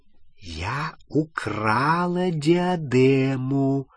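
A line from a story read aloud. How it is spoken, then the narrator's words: Whispered repetition. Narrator (Russian): шепотом повторила Елена Когтевран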